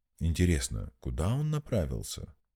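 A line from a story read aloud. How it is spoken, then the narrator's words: Thoughtful question. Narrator (Russian): задумчиво спросил Глаз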